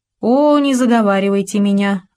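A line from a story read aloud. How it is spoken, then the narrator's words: Princess laughing. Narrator (Russian): засмеялась княжна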